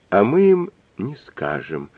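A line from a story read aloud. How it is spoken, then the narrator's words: Crazed mumbling. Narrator (Russian): безумно бормотала Нелли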